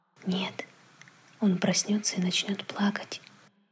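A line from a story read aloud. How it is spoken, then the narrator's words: Quiet reply. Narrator (Russian): так же тихо ответил отец Дэви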